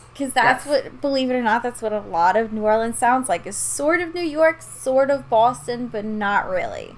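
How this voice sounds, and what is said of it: New Orleans Yat accent. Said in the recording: “I'm from outside of New Orleans, and I have a Yat accent.”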